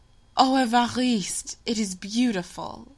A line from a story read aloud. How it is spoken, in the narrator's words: she exclaimed